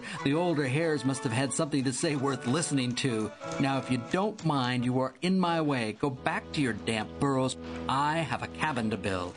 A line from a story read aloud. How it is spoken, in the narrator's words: laughed Derby loudly so that all could hear